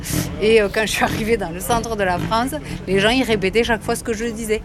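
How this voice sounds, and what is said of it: Southwestern French accent. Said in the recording (French): “moi je suis originaire du sud-ouest ... quand ils m'entendaient, ils avaient l'impression d'être en vacances ... soulignant ton accent”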